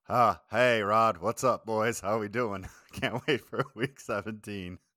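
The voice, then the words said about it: Imitates another person's voice. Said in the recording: “is doing his best Josh Williams impersonation for you there”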